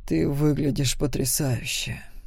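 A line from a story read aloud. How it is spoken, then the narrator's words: Low male voice. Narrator (Russian): низким голосом сказал он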